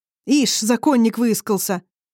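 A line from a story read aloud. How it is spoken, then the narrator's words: Nervous shout. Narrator (Russian): нервно крикнул кто-то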